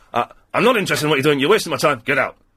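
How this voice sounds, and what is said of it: Deliberately bad imitation of another person. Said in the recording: “a really bad Duncan Bannatyne impression”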